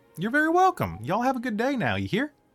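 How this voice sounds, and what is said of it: Put-on twangy accent. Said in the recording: “It's my accent from Mount Nevermind. We got a twang down there, so it must be hard to understand.”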